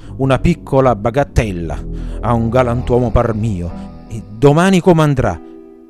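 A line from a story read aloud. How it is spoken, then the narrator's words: Grumbling. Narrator (Italian): brontolando sempre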